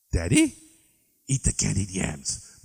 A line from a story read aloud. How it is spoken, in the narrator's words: Mother hissed, as if you were a liquored CIA spy telling secrets about military hardware to some Puerto Rican janitor he met in a bar